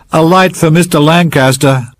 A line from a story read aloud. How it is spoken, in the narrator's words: Winner shouted